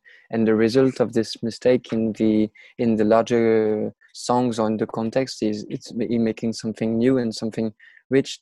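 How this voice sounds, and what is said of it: Non-native accented English. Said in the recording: “sorry for my accent.”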